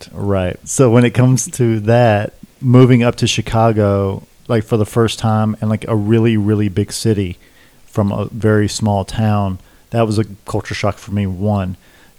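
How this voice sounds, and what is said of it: Southern US accent. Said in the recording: “I grew up in rural South Carolina ... I couldn't tell by the accent.”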